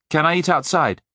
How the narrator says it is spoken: Parval Singh smiled firmly

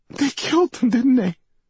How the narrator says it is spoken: Dana cried

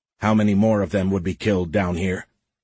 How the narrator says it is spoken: Ola grunted as he dragged the ski-mounted supply crates over the snow

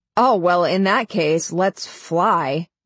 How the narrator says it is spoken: Nine says sarcastically

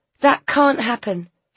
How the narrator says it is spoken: she said fiercely

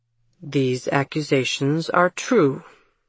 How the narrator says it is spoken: Jameson repeated the obvious in his steady voice

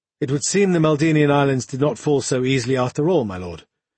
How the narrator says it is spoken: Aloysius replied in a flat tone

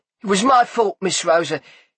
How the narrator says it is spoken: he said quickly

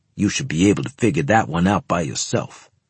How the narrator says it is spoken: he said in a lowered voice

